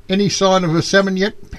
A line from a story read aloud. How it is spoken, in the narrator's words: Paddy shouts down